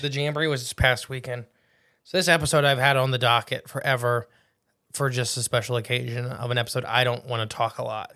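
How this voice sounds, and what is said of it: Hoarse, nearly lost voice. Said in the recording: “losing my voice ... It's lost.”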